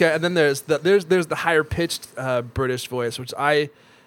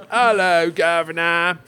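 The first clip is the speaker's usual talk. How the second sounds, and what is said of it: Attempted British accent. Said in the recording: “Why is my British accent so bad? I keep trying, but I feel like it. I just can't get it. ... Oh, my God. Authentic. ... Not bad.”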